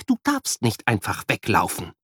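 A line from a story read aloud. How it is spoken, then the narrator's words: Quiet scolding. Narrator (German): schimpft leise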